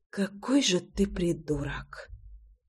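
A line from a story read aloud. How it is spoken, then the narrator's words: Whisper. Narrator (Russian): прошептала Русенька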